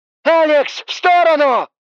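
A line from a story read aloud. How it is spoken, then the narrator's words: Shout. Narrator (Russian): Снова закричала тень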